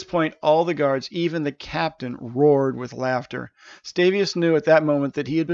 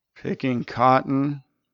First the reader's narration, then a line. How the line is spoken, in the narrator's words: mumbled Stavius